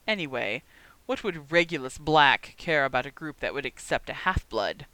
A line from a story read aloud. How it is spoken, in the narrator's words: he sneered